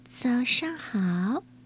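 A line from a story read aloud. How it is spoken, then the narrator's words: Soft-spoken. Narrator (Chinese): 由美又轻声的说了一句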